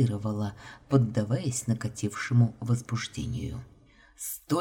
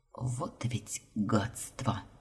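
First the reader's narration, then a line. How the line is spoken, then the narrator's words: Muttering. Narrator (Russian): Пробормотала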